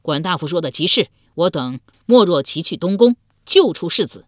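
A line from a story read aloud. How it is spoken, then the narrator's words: Loud reply. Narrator (Chinese): 鲍叔牙之子鲍勇高声应道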